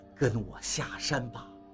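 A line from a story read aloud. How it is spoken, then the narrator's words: Gentle. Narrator (Chinese): 老秦柔声道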